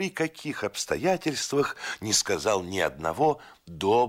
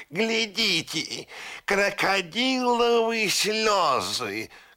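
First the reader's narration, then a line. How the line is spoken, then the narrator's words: Shouting parrot. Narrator (Russian): крикнул пестрый попугай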